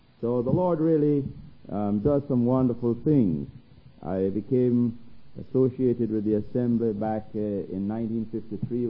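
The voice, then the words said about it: Jamaican accent. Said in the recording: “I grew up in Jamaica and have this accent”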